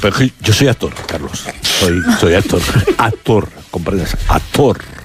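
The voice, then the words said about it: Theatrical put-on actor voice. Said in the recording (Spanish): “poner voz de actor”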